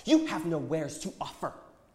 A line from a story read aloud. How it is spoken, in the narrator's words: insisted angrily